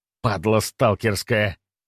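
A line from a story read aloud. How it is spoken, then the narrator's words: Through gritted teeth. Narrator (Russian): процедил душегуб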